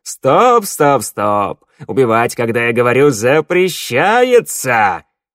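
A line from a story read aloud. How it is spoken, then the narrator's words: Terrifyingly loud. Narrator (Russian): Глашатай, в бесконечном зале ужасающе громко прозвучало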